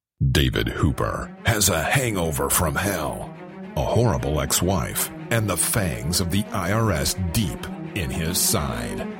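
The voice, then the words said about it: Radio announcer voice. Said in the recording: “Let me get my radio voice.”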